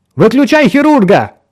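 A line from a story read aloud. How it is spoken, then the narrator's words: Shouted. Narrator (Russian): крикнула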